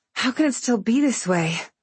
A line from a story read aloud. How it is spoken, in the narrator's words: I panted